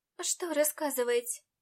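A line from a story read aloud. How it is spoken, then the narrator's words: Weary sigh. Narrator (Russian): Устало вздохнула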